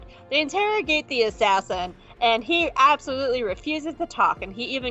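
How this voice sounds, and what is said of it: Usual voice. Nothing is said of it.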